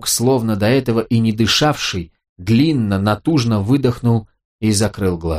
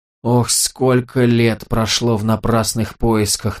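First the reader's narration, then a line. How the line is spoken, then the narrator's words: Moaning. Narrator (Russian): наконец простонал он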